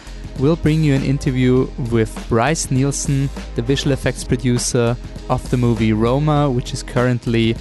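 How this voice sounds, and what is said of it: Heavy Austrian accent in English. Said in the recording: “talking now with a heavily Austrian accent in English”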